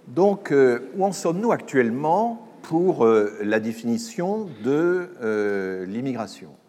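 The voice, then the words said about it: Loud, booming projected voice. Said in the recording (French): “je vais essayer de parler plus fort ... je vais prendre mon autre voix, ma voix de... ma voix de stentor, qui est une voix que j'ai en réserve”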